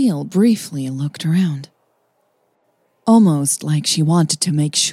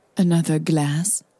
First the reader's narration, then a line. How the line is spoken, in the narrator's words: she asked Hannah coolly